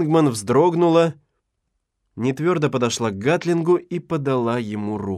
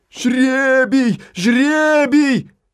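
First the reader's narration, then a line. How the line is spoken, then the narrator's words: Crowd shouting. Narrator (Russian): закричала толпа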